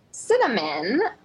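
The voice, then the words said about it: Put-on British accent. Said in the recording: “I'll do a British accent ... that was sounding real good. It sounded really British. ... Did a British lady just join us?”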